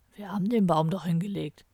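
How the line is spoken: Growl. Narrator (German): knurrte Kalle

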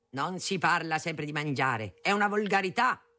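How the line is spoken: Thundered. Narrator (Italian): tuonava

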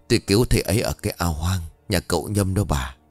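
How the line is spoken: Quiet confirming reply. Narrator (Vietnamese): khẽ gật đầu xác nhận, quay sang đáp lời của vợ

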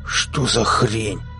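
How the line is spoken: Indignant hiss. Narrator (Russian): возмущенно зашипел Пона

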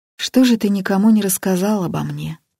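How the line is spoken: Sad question. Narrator (Russian): грустно спросил Дьяченко

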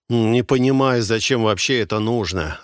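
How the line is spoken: Irritated snort, heavy breathing. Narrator (Russian): раздраженно фыркнул Беддин, отжимаясь на траве и громко сопя

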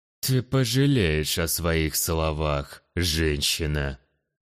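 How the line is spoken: Genuinely furious, through gritted teeth. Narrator (Russian): процедил сквозь зубы Хоурай, и стало ясно, что эта его вспышка ярости была самой настоящей, а не наигранной

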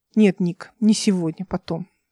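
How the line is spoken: Plain. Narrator (Russian): сказал Алик

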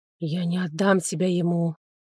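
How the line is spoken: Whisper. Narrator (Russian): шепнул он

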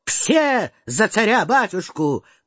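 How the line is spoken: Shouted. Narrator (Russian): кричал

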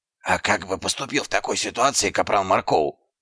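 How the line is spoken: Whispered question. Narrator (Russian): шепотом спросил Дубинс

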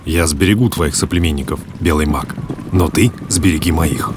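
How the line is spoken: Quiet, shaman speaking. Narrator (Russian): Шаман негромко сказал

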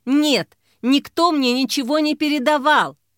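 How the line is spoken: Shout. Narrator (Russian): выкрикнула Мила

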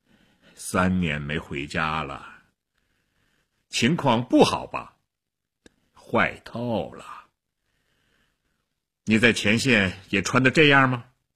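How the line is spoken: Sighing. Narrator (Chinese): 薛特林叹了口气

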